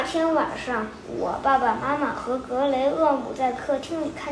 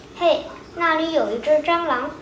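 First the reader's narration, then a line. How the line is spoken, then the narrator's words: Calling out. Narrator (Chinese): 格雷厄姆叫道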